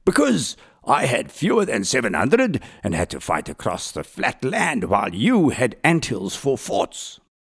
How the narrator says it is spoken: thundered Delarey

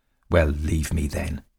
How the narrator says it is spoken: he said bitterly

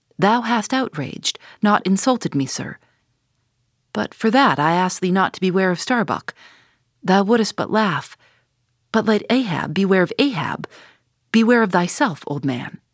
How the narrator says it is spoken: mastering his emotion, he half calmly said

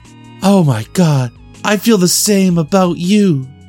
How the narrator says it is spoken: Mina gasped

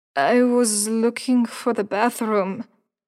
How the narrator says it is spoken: Layla explained, deliberately slurring her words

